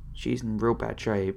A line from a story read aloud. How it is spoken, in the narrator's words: started mumbling